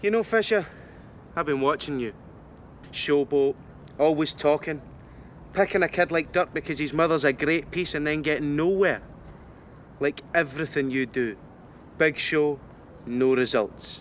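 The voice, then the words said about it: Thick Scottish accent. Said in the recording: “Is he really Scottish?... this thick Scottish accent”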